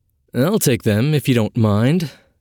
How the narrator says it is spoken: said Telford, chuckling

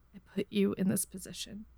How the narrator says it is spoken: Crow said quietly

